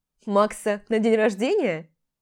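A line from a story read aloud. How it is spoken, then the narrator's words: Laughing. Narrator (Russian): рассмеялась я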